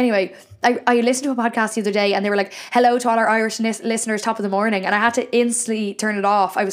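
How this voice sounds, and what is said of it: Usual voice. Nothing is said of it.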